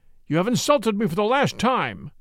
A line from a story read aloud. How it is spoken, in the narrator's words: cried